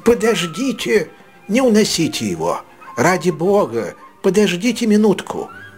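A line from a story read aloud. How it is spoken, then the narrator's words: Breathless exclamation. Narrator (Russian): воскликнул вновь прибывший, запыхавшись от быстрой ходьбы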